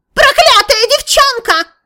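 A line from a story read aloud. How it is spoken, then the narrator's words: Sudden shrill shriek. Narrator (Russian): Неожиданно визгливым голосом вскричал владыка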